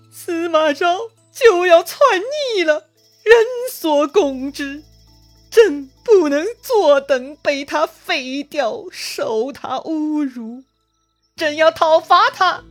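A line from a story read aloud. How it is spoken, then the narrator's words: Crying. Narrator (Chinese): 曹髦啊，哭着对他们说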